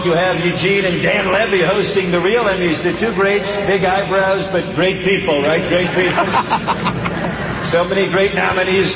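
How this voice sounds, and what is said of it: Donald Trump impression. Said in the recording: “that's Donald Trump. What a great impersonation.”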